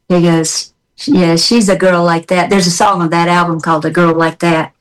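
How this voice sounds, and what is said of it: Southern American accent. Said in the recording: “I like your Southern accent. It never goes away.”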